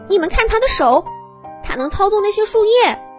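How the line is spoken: Child crying out. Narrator (Chinese): 一个眼尖的小魔法师就叫了起来

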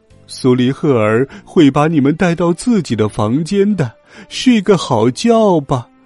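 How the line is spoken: Cheerful smiling. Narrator (Chinese): 胖胖的史密斯小姐笑眯眯的说

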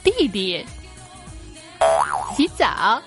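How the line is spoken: Sudden sly laugh, phone. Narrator (Chinese): 电话那边的大可可忽然语调一转，奸笑了一声

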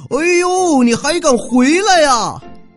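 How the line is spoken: Big man shouting. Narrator (Chinese): 那大汉大叫

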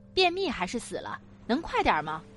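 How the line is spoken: Young man, angry shouting. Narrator (Chinese): 隔壁一个男生敲着门怒骂

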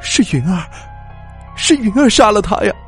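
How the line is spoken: Choked, sobbing voice. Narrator (Chinese): 他才哭了出来，然后用哽咽的声音对我说

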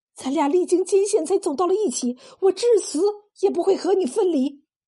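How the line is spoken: Involuntary cry. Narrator (Chinese): 少红 失声叫道

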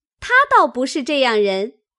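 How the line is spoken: Laughing speech. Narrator (Chinese): 宝钗、湘云都笑道

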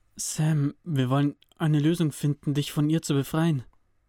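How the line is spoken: Slightly nervous explaining. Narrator (German): erklärte Cody mit leicht nervöser Stimme

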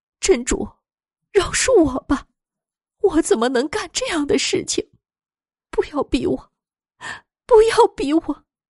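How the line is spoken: Crying. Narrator (Chinese): 神人大姐哭着说

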